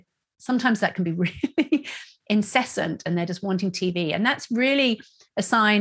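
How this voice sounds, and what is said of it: Usual voice. Nothing is said of it.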